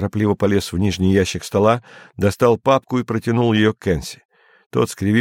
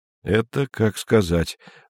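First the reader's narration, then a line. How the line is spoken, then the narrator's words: Gloomy speech. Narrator (Russian): мрачно проговорил Андрей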